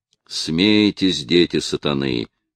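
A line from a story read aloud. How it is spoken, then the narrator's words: Muttered. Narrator (Russian): пробормотал разведчик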